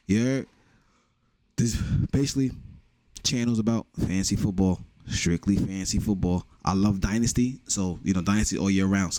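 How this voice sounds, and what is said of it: New York Bronx accent. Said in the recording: “you can tell from my accent, I am from New York, from the Bronx”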